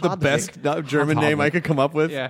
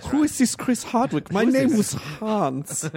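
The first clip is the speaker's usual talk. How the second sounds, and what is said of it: Put-on German accent. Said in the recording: “in a German accent ... That German accent is really good.”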